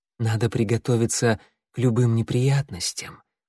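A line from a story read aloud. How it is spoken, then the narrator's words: Purring. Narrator (Russian): промурлыкала Пестролистая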